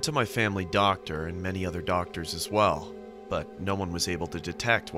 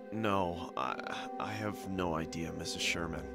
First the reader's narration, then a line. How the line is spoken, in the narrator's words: I said in a feeble voice